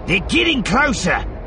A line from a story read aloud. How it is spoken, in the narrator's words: Bossen yelled at him, sounding like a very small voice a long way off